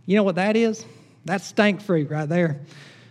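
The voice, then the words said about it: Exaggerated Southern US accent. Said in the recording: “because we're from the South... You got to say it with that accent.”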